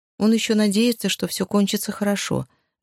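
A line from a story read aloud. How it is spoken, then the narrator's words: Girl's sigh. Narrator (Russian): вздохнула девочка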